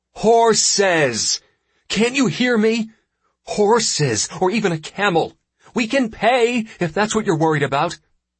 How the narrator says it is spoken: Mektu shouts

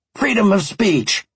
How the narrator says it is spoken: he spat back

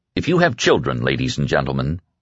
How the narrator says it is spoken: he said quietly

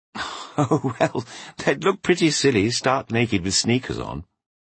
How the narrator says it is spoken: she giggled

